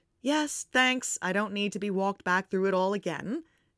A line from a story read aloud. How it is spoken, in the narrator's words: Harry says dryly